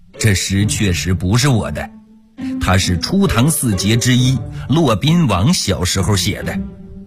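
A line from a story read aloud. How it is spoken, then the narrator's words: Laughing. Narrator (Chinese): 欧阳修笑了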